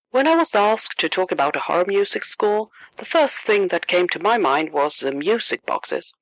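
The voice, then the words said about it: Swedish accent. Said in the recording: “my Swedish accent”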